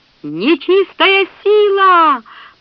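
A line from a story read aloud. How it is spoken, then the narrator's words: Piercing shout. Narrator (Russian): пронзительно закричали телиане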